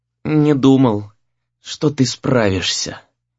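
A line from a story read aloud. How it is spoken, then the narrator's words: Whispered. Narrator (Russian): прошептал тот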